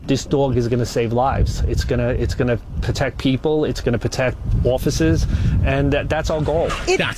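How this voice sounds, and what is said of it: Strong regional accent. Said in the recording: “See, I love that accent. ... Best accent on the planet.”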